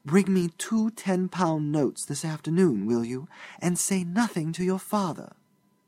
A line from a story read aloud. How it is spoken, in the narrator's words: she whispered